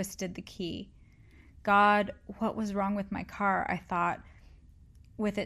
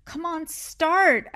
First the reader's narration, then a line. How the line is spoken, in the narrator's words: I yelled